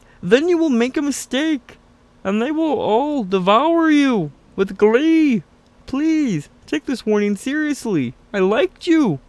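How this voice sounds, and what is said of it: Jordan Peterson impression. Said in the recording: “my Jordan Peterson impression ... I think it's getting kind of fucking good ... It's very good.”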